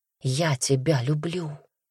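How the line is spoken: Whisper in ear. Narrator (Russian): Прошептал он ей на ухо

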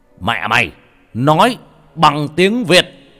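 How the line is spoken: Screaming. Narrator (Vietnamese): hét lên

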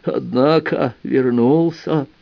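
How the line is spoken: Toothless mumble. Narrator (Russian): прошамкал Бердан

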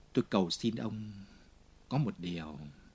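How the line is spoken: Whisper. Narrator (Vietnamese): Jean Valjean vẫn thì thầm

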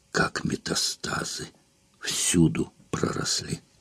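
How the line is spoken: Pained mutter through teeth. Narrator (Russian): Улла скривилась, как от мучительной боли, пробормотала сквозь зубы

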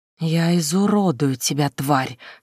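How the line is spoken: Hiss. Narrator (Russian): шипела Эннетта

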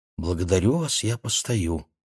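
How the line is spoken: Quiet. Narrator (Russian): Маша потупилась ... тихо сказала

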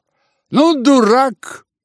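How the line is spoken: Shouting grandmother. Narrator (Russian): крикнула бабушка

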